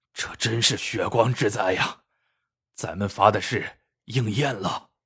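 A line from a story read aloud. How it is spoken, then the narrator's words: Sighing. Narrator (Chinese): 万能胶叹道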